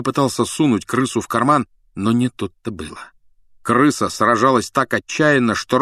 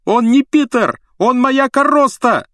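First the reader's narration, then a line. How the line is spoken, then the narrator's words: Yelling. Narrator (Russian): завопил Рон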